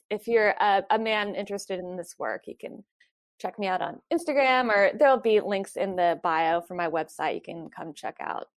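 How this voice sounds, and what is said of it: Southern US (North Carolina) accent. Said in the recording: “Don't you love her y'all? Do you guys hear that? The y'all? ... I'm from North Carolina. ... where your accent was from ... It doesn't come up all the time, but it hits every once in a while. ... I've had to really tone it down, but it does come out sometimes.”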